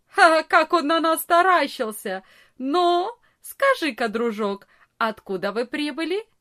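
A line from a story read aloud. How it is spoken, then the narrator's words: Big boy, after loud laugh. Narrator (Russian): самый большой из ребят громко не засмеялся и не сказал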